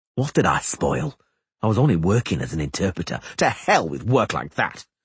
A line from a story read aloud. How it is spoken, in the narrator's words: Aglaval interrupted angrily